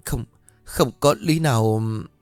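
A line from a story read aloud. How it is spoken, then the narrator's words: Stammering. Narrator (Vietnamese): Bác liền lắp bắp bảo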